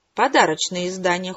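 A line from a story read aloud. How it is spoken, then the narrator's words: Cold curt retort. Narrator (Russian): холодно отрезала Красная Королева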